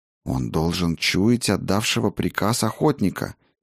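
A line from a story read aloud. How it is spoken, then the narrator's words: Whispered reply. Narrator (Russian): также шепотом отозвалась Клара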